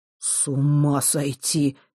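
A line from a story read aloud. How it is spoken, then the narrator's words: Barely audible. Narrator (Russian): едва слышно произнес Морж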